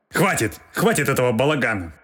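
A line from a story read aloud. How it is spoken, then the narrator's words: Angry bark. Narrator (Russian): Рявкнул в ответ следователь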